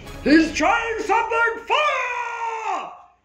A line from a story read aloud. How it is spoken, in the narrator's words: the Lord yell